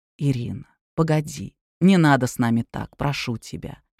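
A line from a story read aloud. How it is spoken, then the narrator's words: Quiet pleading man. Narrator (Russian): тихо проговорил мужчина, которого Ирина назвала Павлом Георгиевичем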